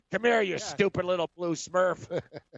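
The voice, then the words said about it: Deep raspy cartoon villain voice. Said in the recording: “You got a good raspy villain voice ... you can do real deep ... Gargamel”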